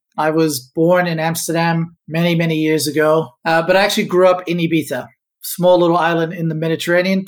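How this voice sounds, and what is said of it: Non-Australian accent. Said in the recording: “you probably can tell by my accent, I'm not Aussie.”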